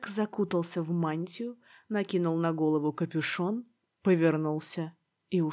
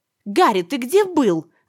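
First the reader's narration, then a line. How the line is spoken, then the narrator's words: Shrieked together. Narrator (Russian): завизжала Гермиона вместе с Роном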